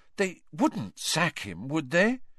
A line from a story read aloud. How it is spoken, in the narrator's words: said Hermione anxiously